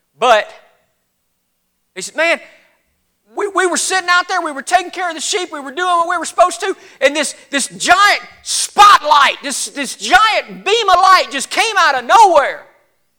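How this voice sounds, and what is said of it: Put-on Southern accent. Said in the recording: “they got this weird southern accent”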